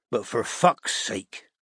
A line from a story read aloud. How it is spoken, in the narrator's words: he growled